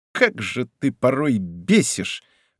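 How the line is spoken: Forced through teeth. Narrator (Russian): выдавила сквозь зубы

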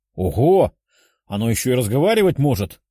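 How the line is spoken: Chuckling young man. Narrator (Russian): хохотнул другой парень

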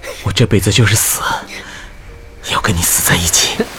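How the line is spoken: Panting, malicious. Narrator (Chinese): 萧迟 喘着气恶意地说

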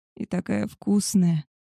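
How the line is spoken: Unrestrained moaning. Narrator (Russian): стонала я уже без стеснений

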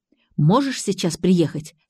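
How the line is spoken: Plain. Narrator (Russian): спросила она

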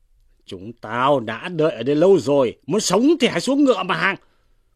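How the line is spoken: Shouted. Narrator (Vietnamese): Bệnh Úy Trì quát lên rằng

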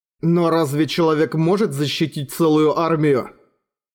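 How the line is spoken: Plain. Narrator (Russian): спросил Эрагон

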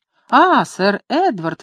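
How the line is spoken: Exclaiming. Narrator (Russian): воскликнула она

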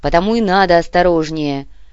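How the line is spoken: Barking. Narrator (Russian): рявкнул Кортес

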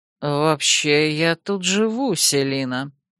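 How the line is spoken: Purring. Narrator (Russian): мурлыкнул он

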